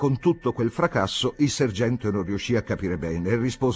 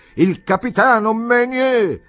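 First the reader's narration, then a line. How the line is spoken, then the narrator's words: Shouting as loud as possible. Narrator (Italian): urlò più forte che poteva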